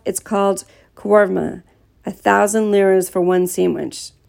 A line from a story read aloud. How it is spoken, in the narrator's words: said with a laugh